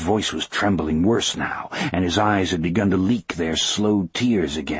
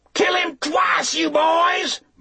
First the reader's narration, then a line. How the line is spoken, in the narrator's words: Marjorie Dettrick suddenly screamed